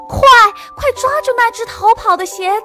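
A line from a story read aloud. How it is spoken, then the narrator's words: Loud shout while chasing. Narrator (Chinese): 鞋匠追来了，他大声地喊道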